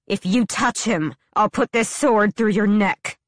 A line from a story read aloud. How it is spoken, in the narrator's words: Selena snarled